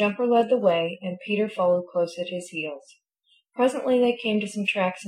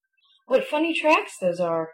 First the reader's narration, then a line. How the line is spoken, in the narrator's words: he exclaimed